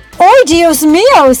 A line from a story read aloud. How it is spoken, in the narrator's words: he exclaimed as he swerved and slammed on the brakes